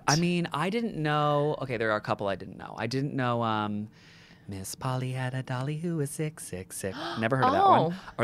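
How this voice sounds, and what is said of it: American accent. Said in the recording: “as an American, you can tell by my voice”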